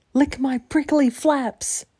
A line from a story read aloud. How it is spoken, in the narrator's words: She yelled